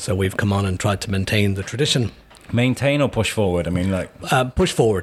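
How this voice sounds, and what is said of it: Regional accent from west of Shropshire. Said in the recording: “as you can probably gather from my accent. I come ... far west of Shropshire”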